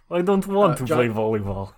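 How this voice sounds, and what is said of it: Fake Russian, Dracula-like accent. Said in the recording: “he's Russian... He's suddenly Russian... I like how that's not even Russian. That's fucking Dracula.”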